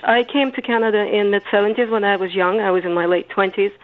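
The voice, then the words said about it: Immigrant non-native English accent. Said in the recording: “I am an immigrant, and you can tell that from my accent.”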